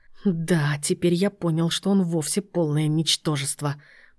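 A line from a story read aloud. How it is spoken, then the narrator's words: Taunting through gritted teeth. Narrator (Russian): процедил Игорь Вадимович, надеясь хоть так зацепить внука, взять на слабо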